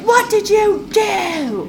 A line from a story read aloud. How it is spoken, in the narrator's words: Klaus is like screaming at Caroline